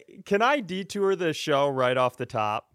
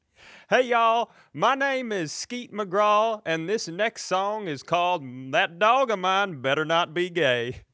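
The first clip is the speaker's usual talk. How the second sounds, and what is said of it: Put-on Southern accent. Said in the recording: “Now, you're using a Southern accent.”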